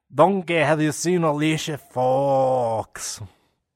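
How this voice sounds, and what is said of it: Shrek character voice impression. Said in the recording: “doing a Shrek impression ... when I'm speaking as Noam Dar”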